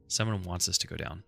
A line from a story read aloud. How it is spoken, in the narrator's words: she said